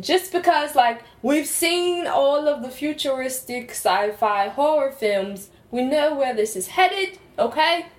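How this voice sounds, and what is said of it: Put-on accent, slipping slightly. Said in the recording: “I'm starting to lose my accent a little ... You've done well to keep it up this long.”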